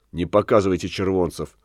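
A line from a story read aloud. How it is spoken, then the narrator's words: Whisper. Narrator (Russian): шепнул ему Линшпигель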